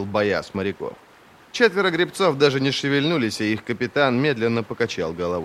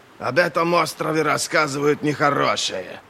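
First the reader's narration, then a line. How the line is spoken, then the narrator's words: Grumbled, thick heavy accent. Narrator (Russian): Проворчал он на общем с таким густым акцентом, что сложно было разобрать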